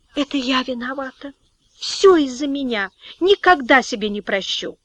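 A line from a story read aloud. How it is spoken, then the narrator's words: Whisper. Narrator (Russian): Соня прошептала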